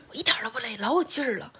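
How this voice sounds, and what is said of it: Quoted line spoken softly. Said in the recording (Chinese): “还是那种小声说”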